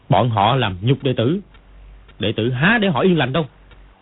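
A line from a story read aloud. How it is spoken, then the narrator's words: Angry. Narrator (Vietnamese): Dương Quá tức giận nói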